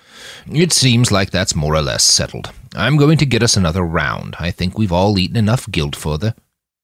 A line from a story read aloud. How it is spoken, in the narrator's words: grumbled